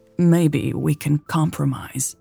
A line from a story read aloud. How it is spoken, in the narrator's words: she said